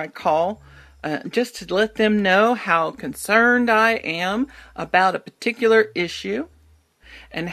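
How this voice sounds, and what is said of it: Texan accent. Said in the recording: “I'm from Texans, and that I have this particular accent”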